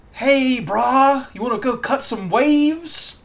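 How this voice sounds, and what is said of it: Put-on California surfer accent. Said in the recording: “the California stereotype used to be like”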